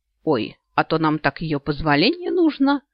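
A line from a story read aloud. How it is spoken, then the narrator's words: Snort. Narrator (Russian): фыркнул он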